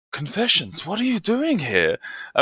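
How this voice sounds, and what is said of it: Poor put-on Romanian accent. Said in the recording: “this is a terrible Romanian accent ... I'm butchering it”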